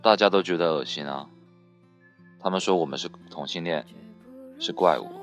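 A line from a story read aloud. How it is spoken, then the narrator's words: Flat, indifferent. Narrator (Chinese): 淡淡的说了一句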